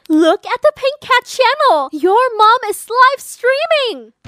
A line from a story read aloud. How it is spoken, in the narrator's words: excitedly said